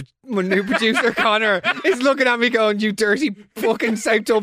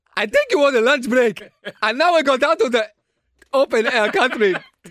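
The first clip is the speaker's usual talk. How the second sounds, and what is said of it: Imitates another person's accent. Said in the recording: “Connor's natural accent is”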